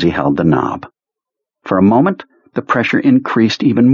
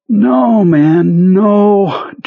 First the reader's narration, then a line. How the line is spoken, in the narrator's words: Jonesy said in a watery, almost weeping voice